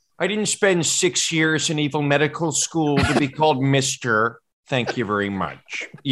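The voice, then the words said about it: Dr. Evil impression. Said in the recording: “Dr. Evil and Fat Bastard ... Dr. Evil's just like”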